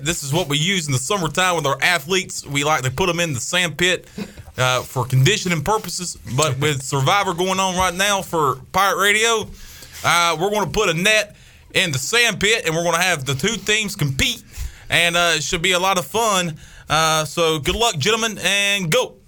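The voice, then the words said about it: Imitates another person's voice. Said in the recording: “That's a very good Jeff Connors impression. ... that is a phenomenal, phenomenal Coach Connors.”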